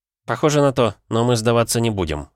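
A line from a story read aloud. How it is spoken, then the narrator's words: Snort. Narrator (Russian): хмыкнул я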